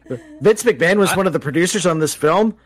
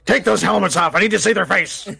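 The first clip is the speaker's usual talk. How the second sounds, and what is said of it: Imitates another person's voice. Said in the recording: “shockingly good impersonation”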